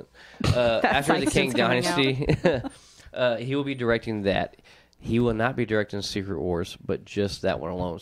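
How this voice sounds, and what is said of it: Speaker's own noticeable accent. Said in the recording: “It's just my accent.”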